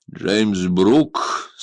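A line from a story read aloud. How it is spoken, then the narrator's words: Commanding tone. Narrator (Russian): сказал он властным тоном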